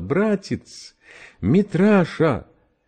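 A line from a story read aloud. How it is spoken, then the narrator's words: Sobbing. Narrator (Russian): рыдая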